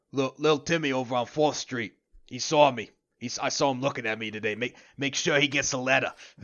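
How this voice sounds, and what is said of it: Put-on general New York/Boston/Jersey accent. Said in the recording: “he's from the shore, the east side of US. I'm gonna say like a general New York, Boston, Jersey accent.”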